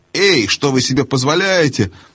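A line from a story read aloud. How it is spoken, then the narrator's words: Yelling. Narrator (Russian): завопил было привратник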